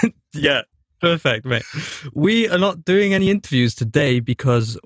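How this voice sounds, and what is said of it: Usual voice. Nothing is said of it.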